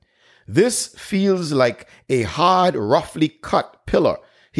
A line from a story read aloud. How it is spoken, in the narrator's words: he exclaimed